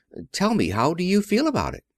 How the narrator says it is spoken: breathing rather quickly

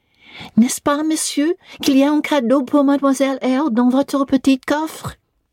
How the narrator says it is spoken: Adèle, thinking the moment propitious for making a request in my favor, cried out

